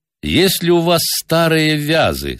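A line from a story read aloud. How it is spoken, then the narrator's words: Plain. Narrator (Russian): спросил я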